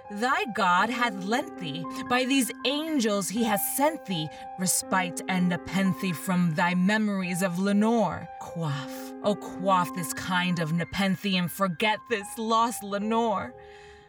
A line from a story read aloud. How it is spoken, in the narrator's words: I cried